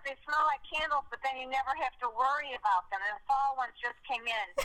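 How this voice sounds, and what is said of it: Strong Chicago accent. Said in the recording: “have you ever heard a more Chicago accent?”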